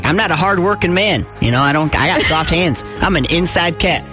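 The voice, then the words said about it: Slight rural hick accent. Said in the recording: “it was pretty hick ... I might be hick a little bit with the accent”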